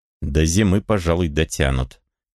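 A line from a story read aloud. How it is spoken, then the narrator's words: Strained forced calm. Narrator (Russian): сказал он спокойно, изо всех сил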